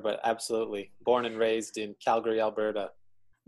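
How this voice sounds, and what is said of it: Canadian accent. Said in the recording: “you'll probably hear it in my accent ... fellow Canadian”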